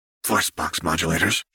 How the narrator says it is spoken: she muttered

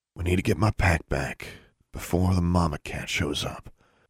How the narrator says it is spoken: he murmured

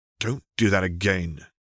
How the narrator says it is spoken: Harry growled

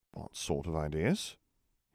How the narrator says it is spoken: Harry replied in a cautious tone

